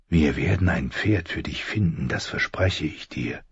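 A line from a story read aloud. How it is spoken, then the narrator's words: Whisper. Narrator (German): flüsterte Rob schließlich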